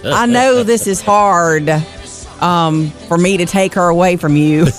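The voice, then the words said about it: Put-on accent imitating another person. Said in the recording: “How come you're launching into the accent there? ... That's pretty good, isn't it?”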